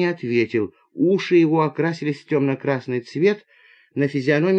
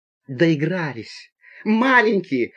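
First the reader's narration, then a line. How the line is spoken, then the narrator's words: Woman's exclamation. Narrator (Russian): воскликнула пассажирка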